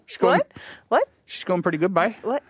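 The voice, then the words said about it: East Coast Canadian accent. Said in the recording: “that's a little bit of the East Coast Canadian accent”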